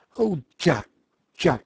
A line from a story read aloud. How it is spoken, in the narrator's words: she cried